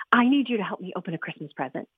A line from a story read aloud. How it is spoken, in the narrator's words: said breathlessly